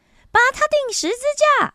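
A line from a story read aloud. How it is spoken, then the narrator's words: Crowd shouting louder. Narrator (Chinese): 他们更大声的喊叫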